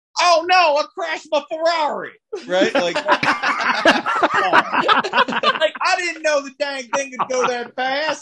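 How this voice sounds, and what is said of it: Thick cartoonish Texas accent. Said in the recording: “in the thickest, most cartoonish Texas accent possible”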